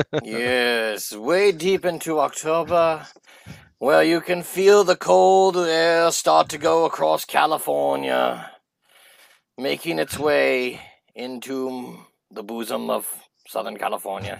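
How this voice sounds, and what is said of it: Lord of the Rings style accent. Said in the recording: “You started no, with this ... Lord of the Rings accent, and then what was the ending of it? That was not Lord of the Rings.”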